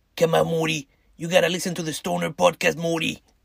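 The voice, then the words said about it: Imitates a cartoon character's voice. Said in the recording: “my Rick Sanchez impression”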